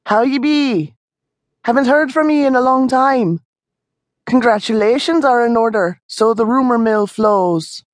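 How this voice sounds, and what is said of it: Scottish brogue character voice. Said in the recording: “still spoke with a Scottish brogue”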